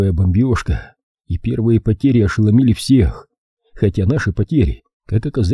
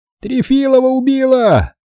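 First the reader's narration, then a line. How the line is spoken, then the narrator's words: Desperate shout. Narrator (Russian): отчаянно закричал наводчик Осетский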